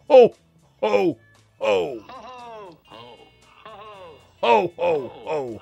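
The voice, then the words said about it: Santa Claus voice. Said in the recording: “my best Santa impression.”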